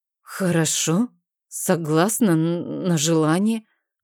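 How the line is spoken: Mumbling. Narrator (Russian): промямлила я

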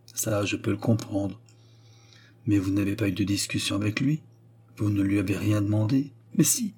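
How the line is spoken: Low voice. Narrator (French): dit Louis à voix basse

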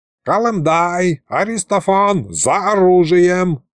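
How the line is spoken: Loud yell. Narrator (Russian): заорал Михалыч

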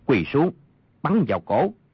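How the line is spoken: Lowered voice. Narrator (Vietnamese): Thần tiễn thủ Triết Biệt ... hạ giọng nói

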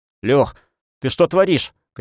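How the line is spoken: Shout. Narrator (Russian): крикнул

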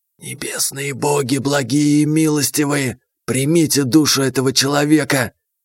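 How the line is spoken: Gloating whisper. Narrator (Russian): Змея злорадно прошептала

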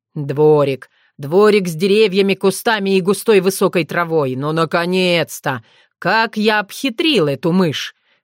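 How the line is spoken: Mocking snort. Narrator (Russian): Фыркнул он насмешливо

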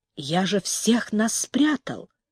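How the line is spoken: Stubborn, quiet. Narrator (Russian): упрямо и тихо проговорил Дзюни

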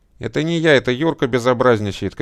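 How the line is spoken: Shout. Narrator (Russian): крикнула Даша

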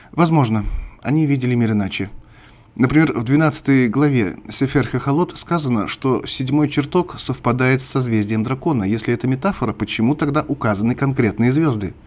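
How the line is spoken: Calm, restrained. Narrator (Russian): Неон ответил спокойно и даже как-то сдержанно

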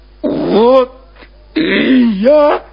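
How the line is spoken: Repeating amid hysterical sobs. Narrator (Russian): повторяет он, раздражаясь истерическими рыданиями

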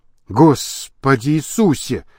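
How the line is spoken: Muttering. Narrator (Russian): пробормотал Лабрюер

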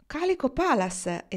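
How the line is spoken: Exclamation. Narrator (Italian): esclamò Kendra

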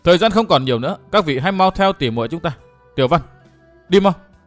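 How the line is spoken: Firm and loud. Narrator (Vietnamese): Tiểu Úc trở nên kiên quyết, nói to

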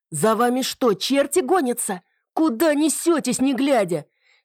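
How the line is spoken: Angry yelling. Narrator (Russian): С сердитым видом заорал он

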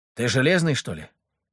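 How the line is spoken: Mumbled. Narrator (Russian): пробормотал Леха

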